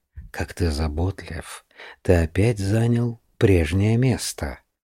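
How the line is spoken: Tender purr. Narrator (Russian): нежно промурлыкала

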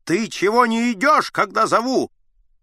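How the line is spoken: Shouting. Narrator (Russian): Аггей закричал

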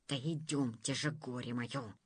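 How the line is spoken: Hissing in ear. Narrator (Russian): прошипел на ухо царю-прицарю министр

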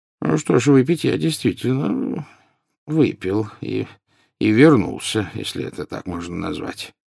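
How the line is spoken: Mumbling. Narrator (Russian): пробормотал Дамблдор

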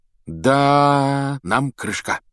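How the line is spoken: Dejected, sinking voice. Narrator (Russian): упавшим голосом сказал он

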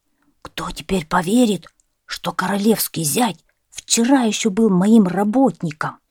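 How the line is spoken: Whispering gardener. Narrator (Russian): Садовник шептал

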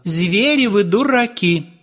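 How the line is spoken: Loud woman. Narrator (Russian): громко сказала

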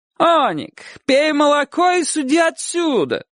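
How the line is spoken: Hopeful shout. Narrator (Russian): крикнул через некоторое время богатый портной, надеясь

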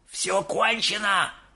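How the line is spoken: Old man shouting. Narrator (Russian): закричал дедушка Джо

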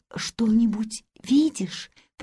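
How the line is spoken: Whispered. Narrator (Russian): прошептала наконец Хильда

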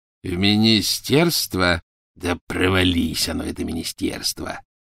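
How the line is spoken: Growled. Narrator (Russian): прорычал Сивый

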